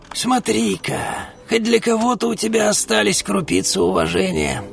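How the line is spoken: Creaky voice. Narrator (Russian): проскрипела

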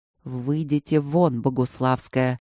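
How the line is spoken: Quiet, measured. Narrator (Russian): тихо произнес всемирно известный ученый и маг

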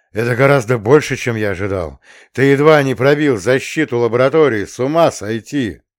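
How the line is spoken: Loud laughter, colonel. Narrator (Russian): Полковник громко расхохотался

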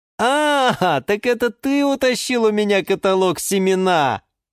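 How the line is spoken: Laughing. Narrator (Russian): рассмеялся Юра

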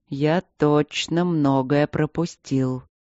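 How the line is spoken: Slow speech. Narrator (Russian): медленно проговорил Энтери

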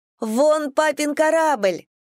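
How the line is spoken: Shouting. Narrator (Russian): закричала Фрея

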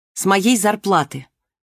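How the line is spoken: Angry. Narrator (Russian): сердито сказала Марго

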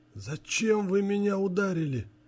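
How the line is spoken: Forced out through pain. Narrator (Russian): Сквозь боль выдавил Андрей

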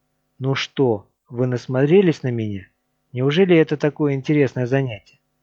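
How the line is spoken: Hiss. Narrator (Russian): Отец Роберт прошипел

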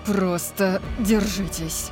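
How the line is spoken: Through clenched teeth. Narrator (Russian): сказал Орион сквозь зубы

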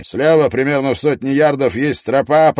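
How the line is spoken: Shouted. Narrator (Russian): прокричал Клин

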